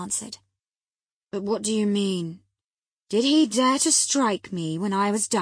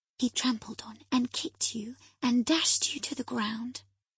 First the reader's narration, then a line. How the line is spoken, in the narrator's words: I whispered